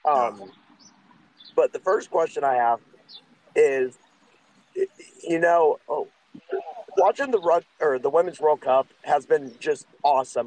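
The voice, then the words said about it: Congested, sick-sounding voice. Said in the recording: “I do apologize for my voice. I'm actually getting over kind of a sinus infection.”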